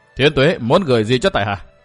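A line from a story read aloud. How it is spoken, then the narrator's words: Stern. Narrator (Vietnamese): Mạn Kinh Hồng nghiêm giọng nói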